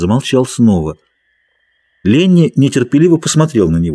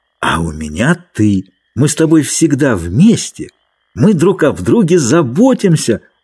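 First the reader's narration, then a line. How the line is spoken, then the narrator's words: Triumphant exclamation. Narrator (Russian): воскликнул Ленни с торжеством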